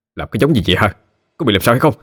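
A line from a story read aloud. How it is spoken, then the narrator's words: Startled shout. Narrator (Vietnamese): Trọng Nhân giật mình, miệng quát lên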